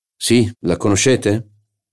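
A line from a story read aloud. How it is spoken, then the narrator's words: Said curtly. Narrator (Italian): disse seccamente Charlus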